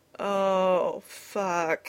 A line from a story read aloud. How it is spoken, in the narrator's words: he moaned